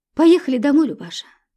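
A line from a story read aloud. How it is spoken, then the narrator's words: Sighing. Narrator (Russian): вздохнул Федор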